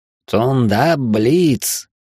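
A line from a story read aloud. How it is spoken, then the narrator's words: Nasal voice. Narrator (Russian): Гнусаво закончил я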